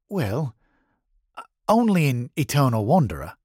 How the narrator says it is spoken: Matt said in a hesitant voice

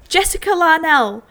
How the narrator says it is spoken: I exclaimed it

